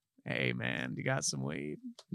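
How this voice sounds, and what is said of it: Imitates an actor's drawling voice. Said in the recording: “Matthew McConaughey ... Stellar impersonation”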